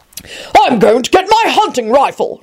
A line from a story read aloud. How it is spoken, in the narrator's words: Richard shouted